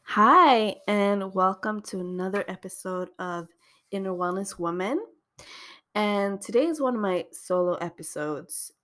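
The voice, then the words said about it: Voice roughened by a cold. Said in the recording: “Excuse my voice. I have had a bit of a cold, so I hope you can hear me properly”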